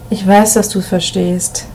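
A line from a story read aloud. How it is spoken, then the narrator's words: Low murmur. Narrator (German): raunte Emil Martin zu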